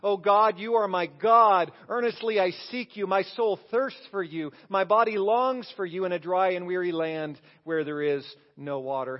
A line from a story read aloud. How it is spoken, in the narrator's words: King David, who cried out in Psalm 63 these words